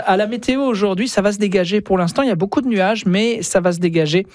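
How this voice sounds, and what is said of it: European French accent. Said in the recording (French): “mon accent bien de l'autre bord de l'Atlantique”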